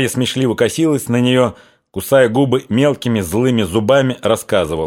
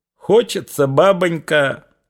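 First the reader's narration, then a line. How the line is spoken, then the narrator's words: Guffawing, flushed. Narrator (Russian): хохотала, розовея и дрожа крутыми дугами бровей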